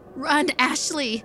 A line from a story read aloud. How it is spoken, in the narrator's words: Taylor screamed